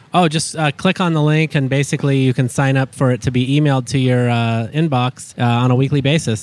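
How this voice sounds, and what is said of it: Slightly raspy voice. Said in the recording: “is your voice a little raspy ... I've been a little bit under the weather”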